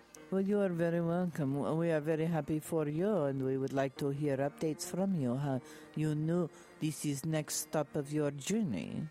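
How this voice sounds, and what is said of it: Speaks with a put-on accent. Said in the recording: “I love that accent.”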